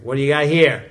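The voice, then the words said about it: Thick New Jersey accent. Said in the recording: “he had a thick New Jersey accent.”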